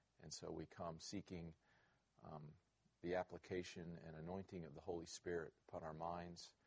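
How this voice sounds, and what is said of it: Strained, damaged-sounding voice. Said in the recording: “apologize for my voice. ... I am actually embarrassed at this. Last night I did go to the game”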